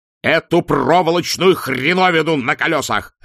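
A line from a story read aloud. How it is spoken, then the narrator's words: Barking roar. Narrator (Russian): рявкнул арк-канцлер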